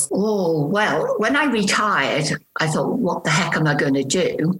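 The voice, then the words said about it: Slight Liverpool accent. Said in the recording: “I'm originally from Liverpool. So you may pick up a bit of an accent. I'm not sure how strong that would be.”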